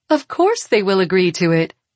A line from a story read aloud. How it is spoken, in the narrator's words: Katerine says, and laughs